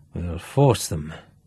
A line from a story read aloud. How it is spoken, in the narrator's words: muttered Duff